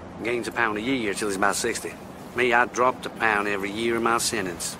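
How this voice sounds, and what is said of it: Inconsistent Southern accent, De Niro. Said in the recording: “Southerners who uh, really cringe at this accent ... it bounces all over the place. It's inconsistent ... you're watching De Niro”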